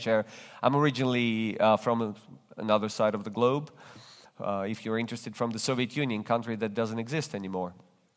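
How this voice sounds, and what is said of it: Non-native accented English. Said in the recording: “If you detect an accent in my speaking, you're right. I speak with an accent because English is not my native language.”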